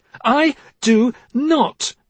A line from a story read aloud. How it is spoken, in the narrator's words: Her voice was loud